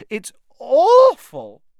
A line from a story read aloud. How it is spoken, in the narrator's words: Hermione sobbing